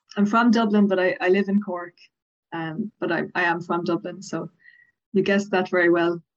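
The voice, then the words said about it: Irish accent. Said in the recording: “I love the Southern Irish accent ... I do particularly like the Dublin kind of area”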